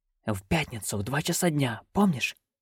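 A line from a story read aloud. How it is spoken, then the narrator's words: Hissed. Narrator (Russian): прошипел Шут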